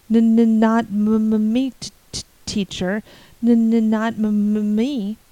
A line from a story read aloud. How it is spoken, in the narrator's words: Joe Sloane stuttered out wildly